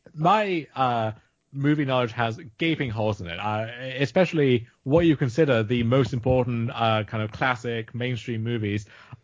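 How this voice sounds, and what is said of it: Posh British accent. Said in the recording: “I have a posh British accent”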